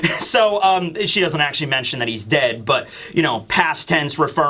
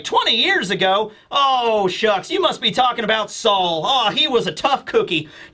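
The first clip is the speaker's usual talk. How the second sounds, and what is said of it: Put-on southern accent. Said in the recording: “I'm just gonna give her a southern accent because that's what I think she has.”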